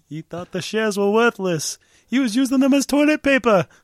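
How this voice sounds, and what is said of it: Imitates a cartoon character's voice. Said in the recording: “my best Hermes impression”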